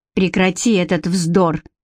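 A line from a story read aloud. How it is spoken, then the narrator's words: Sharp interruption. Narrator (Russian): резко оборвала Элоиза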